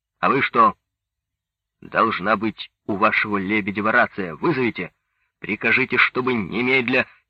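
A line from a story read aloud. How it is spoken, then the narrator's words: Angry question. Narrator (Russian): спросил зло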